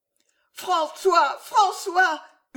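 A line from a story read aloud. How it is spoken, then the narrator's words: Screamed deliriously. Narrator (French): hurla Jeanne délirante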